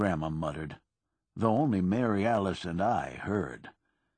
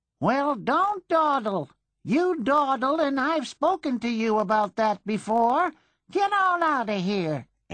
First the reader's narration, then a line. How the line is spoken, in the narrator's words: Aunt Puss hollered